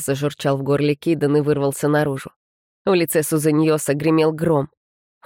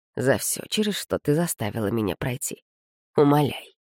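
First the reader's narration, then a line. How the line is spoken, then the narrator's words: Lifeless quiet voice. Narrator (Russian): повторил Сузаньос безжизненно тихим голосом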